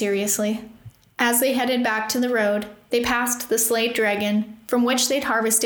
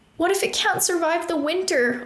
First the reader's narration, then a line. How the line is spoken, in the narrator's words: Opal whined